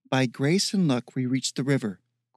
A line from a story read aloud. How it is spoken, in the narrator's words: Callista said flatly